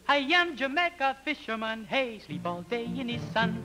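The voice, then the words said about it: Poorly done Jamaican accent, singing. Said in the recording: “a very makeshift, poorly constructed Jamaican accent, island accent, which was a little offensive ... It was rough ... It was pretty rough”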